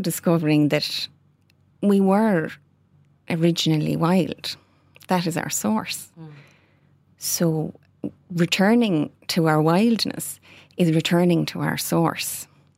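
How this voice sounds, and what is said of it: Soothing Irish West Kerry accent. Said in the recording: “I'm loving your gorgeous West Kerry mm-hmm. accent. ... you're sending me to sleep there ... it's a bit of a mix between Waterford, uh, Kerry, ... and India”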